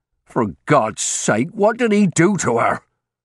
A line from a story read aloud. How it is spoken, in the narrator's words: His voice rose